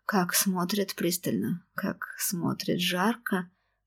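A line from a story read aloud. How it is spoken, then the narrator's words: Languid seductive whisper. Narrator (Russian): Томно прошептала развратница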